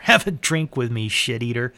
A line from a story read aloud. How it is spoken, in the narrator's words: shouted